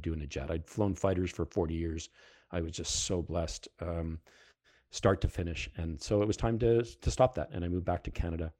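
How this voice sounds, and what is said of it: Heavy Canadian accent, Fargo-like. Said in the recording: “my accent is coming back very heavily these days. ... you don't understand my accent, go watch the movie Fargo and you'll figure me out”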